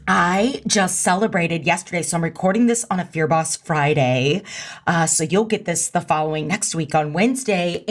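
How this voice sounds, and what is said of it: Hoarse voice, losing it. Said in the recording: “I sound like I'm losing my voice. Do I sound like I'm losing my voice? ... let me take a sip of the cough.”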